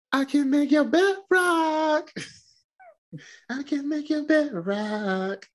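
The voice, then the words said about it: Imitates another person's voice, rapping. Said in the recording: “my Little Wayne impersonation ... That was pretty good”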